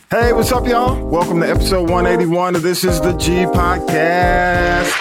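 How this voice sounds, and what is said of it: Worn-out, tired-sounding voice. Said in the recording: “you probably hear it in my voice, is, is recouping just a tad bit”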